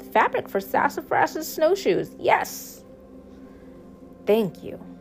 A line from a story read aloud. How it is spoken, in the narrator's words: squealed